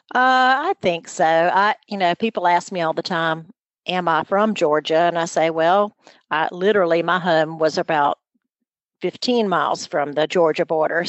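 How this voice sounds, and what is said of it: Southern US accent. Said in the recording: “somewhere along the way, I definitely have morphed into that southern accent”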